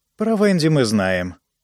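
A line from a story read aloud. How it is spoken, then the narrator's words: Very calm. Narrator (Russian): произнесла Пат очень спокойно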